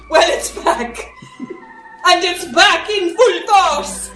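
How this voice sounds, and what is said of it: Strong put-on accent. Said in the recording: “you've forgotten your accent.”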